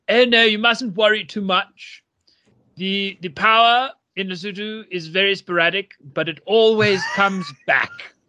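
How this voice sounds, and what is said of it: Imitated local Lesotho woman's accent. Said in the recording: “the accent I'm about to portray”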